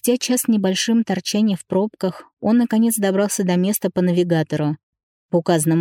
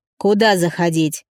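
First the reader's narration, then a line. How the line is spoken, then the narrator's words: Growling into phone. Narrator (Russian): рыкнул в трубку Павел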